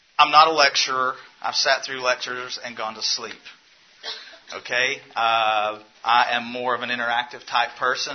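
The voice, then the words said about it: Southern US accent. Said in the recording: “I have a southern accent ... they ask me if I'm speaking English”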